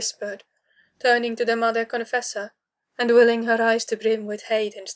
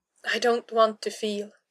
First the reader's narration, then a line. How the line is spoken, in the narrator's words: she whispered, hating how much like a child she sounded